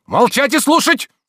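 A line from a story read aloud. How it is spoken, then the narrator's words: Intimidating shout. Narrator (Russian): крикнул Обломов, так что Анисья оробела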